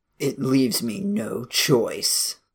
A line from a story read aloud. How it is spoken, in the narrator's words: he murmured